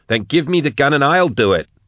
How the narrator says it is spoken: snapped Max

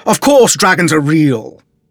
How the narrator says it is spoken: exclaimed Sir Keogh

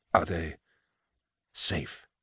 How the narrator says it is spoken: I whispered to Baptrice

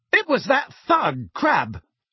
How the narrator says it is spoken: said Angelina angrily

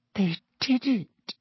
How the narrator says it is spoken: she whispered to Harry

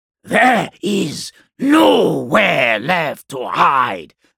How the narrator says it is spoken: the Khan hissed

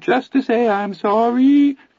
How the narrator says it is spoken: Teddy wavered in a dreadful little Anthony falsetto

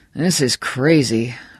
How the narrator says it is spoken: Bannerman muttered

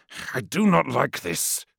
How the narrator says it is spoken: hissed Yonad

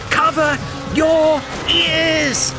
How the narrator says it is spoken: he shouted to Neil

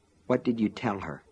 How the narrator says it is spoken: He muttered

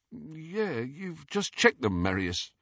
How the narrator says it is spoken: who said in a slightly dazed voice

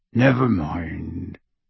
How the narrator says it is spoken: he said gruffly

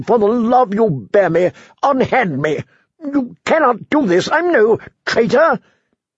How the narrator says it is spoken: the prisoner asked desperately

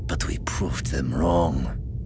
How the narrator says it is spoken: Lorna said coolly

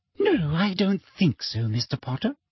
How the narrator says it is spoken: said Umbridge sweetly

